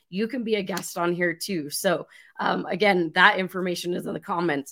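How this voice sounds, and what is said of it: Hoarse, fading voice. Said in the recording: “apparently I'm losing my voice today”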